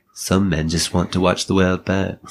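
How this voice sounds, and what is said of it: Imitates another person's voice, accented. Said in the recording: “You got the accent right, the tone's off.”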